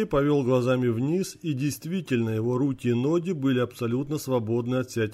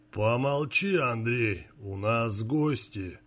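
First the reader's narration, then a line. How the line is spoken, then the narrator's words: Calm old man. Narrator (Russian): спокойно сказал дед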